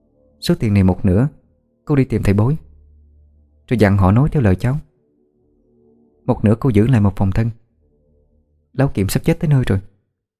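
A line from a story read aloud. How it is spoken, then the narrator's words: Whispering. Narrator (Vietnamese): thì thầm vào tai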